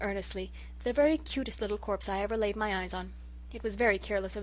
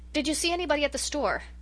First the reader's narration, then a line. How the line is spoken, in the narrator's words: asked Rilla desperately, in the faint hope of directing Susan's conversation into more agreeable channels